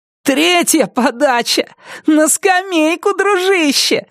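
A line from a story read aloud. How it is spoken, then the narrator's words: Yell, then roaring laughter. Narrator (Russian): заорал Брайан и расхохотался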